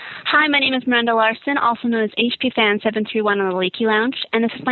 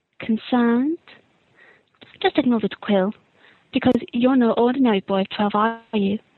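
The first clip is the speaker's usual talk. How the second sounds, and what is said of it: Impression of Rita Skeeter. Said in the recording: “my impression of Rita Skeeter”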